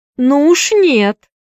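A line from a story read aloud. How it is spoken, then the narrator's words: Shouted. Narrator (Russian): закричала Присцилла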